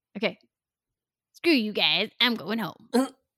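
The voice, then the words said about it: Imitates Cartman cartoon voice. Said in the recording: “in my best voice. It's not going to be good ... Cartman. South Park. ... That was a good one ... I don't think I would have got it without the voice”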